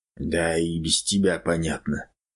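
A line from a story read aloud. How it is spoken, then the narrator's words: Whispering. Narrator (Russian): прошептал Федор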